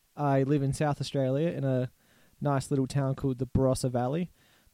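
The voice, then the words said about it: Australian accent. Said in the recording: “if it's not clear by my accent, I'm Australian.”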